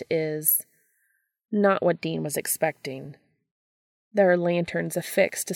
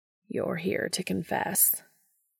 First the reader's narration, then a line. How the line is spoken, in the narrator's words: the man says, voice a delightfully deep rumble that Dean can feel rolling through his bones like thunder in the mountains